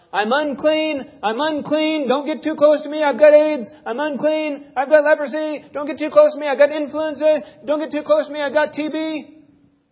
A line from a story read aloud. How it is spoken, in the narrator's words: they had to shout out